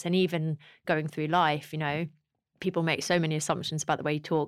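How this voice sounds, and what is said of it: Posh London-sounding accent. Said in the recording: “they're going to assume that I was kind of brought up in this very like well-to-do London sort of environment”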